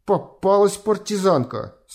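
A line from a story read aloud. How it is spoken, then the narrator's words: Through gritted teeth. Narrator (Russian): сквозь зубы сказал он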